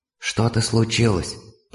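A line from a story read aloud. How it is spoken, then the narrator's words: Whisper in the ear. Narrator (Russian): прошептала мне Пэтси на ухо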